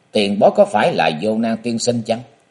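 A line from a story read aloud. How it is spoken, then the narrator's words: Cold question. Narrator (Vietnamese): Châu Thanh lạnh lùng hỏi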